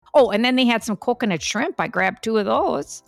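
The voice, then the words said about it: Thick Upper Midwest American accent. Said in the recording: “What is happening with this accent?... are you from Chicago? I said, well, actually, a little bit further north, Milwaukee.... It's thick.”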